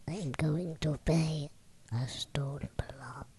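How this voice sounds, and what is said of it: Quiet, hushed voice. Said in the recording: “In a quiet voice,”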